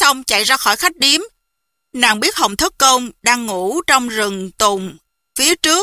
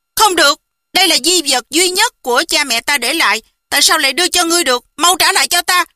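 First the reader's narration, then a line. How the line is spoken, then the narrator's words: Angry. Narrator (Vietnamese): Một Niệm Từ tức giận nói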